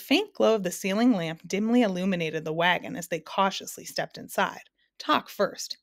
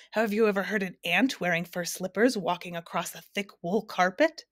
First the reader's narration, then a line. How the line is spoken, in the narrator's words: he went on in a strange croaking way